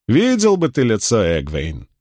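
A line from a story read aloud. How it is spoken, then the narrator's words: Laughing loudly. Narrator (Russian): Авиенда захохотала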